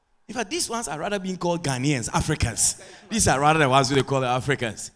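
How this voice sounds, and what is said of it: Guyanese Creolese accent. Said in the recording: “I change it to my half Creolese... you got an accent... it's Guyanese. Guyanese to the bone.”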